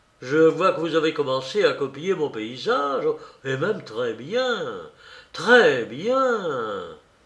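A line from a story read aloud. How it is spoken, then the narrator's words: Exclaimed. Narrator (French): s'écria-t-il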